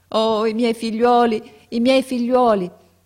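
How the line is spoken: Exclaimed. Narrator (Italian): esclamava

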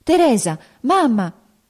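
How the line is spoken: Agitated exclamation. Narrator (Italian): una voce alterata esclamò dietro la carrozza

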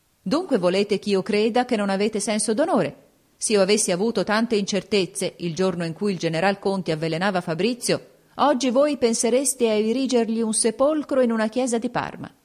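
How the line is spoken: Prince exclaiming. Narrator (Italian): Il principe esclamò

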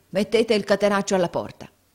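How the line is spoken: Shouted. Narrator (Italian): urlò Squeers

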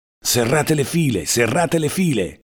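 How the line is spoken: Curt shout. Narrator (Italian): ci gridava con voce secca

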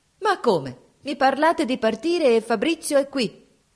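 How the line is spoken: Shouting. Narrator (Italian): gridò

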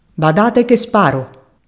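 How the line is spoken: Shouting. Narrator (Italian): gridò Marge

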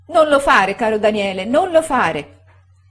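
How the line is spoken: Moved, shouting woman. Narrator (Italian): gridava commossa la signora Gummidge

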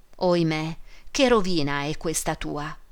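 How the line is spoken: Tearful exclamation. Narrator (Italian): esclamò Esther con gli occhi pieni di lacrime

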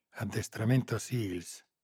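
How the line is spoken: Whisper. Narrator (Italian): sussurrò Moretti

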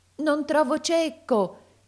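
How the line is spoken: Shouting, choked with tears. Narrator (Italian): gridava talvolta col pianto alla gola

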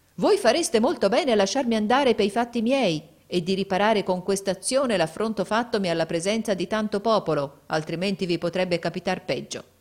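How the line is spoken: Cold, composed old man. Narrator (Italian): il vecchio, senza scomporsi, gli disse freddamente

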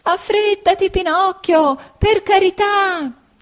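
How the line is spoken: Bleating goat's shout. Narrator (Italian): gridava belando la bella caprettina

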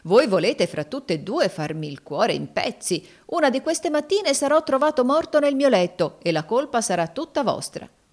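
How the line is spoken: Exclamation. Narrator (Italian): esclamò Adolfo

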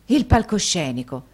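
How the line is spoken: Forceful exclamation. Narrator (Italian): esclamò Nicola quasi con la stessa forza

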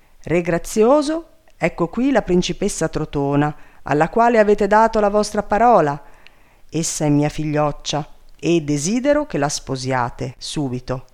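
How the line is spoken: Commanding voice. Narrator (Italian): Sussio gli disse con voce di comando

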